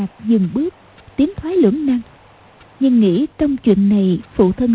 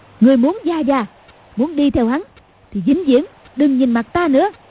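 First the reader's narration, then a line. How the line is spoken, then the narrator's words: Shout. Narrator (Vietnamese): Cầu Thiên Xích quát lên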